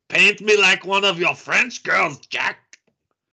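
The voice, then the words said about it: Put-on French accent, German-tinged. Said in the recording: “your accent was a little French there. It's a little more German in there.”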